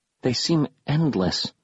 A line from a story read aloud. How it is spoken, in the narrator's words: I whispered to myself